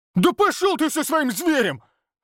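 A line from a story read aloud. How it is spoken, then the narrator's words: Angry bark. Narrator (Russian): рявкнул Олег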